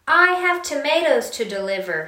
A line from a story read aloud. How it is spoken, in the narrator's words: he shouted